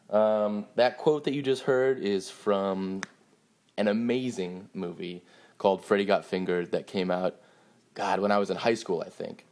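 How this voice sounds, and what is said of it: Sick-sounding, congested voice. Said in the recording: “excuse me if I sound sick. I'm uh, sick.”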